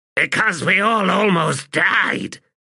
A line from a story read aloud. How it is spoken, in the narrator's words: Throat Slitter snapped